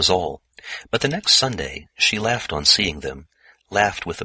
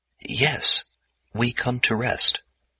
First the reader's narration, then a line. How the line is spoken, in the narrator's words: Luc Leganedec, the boulder, stammered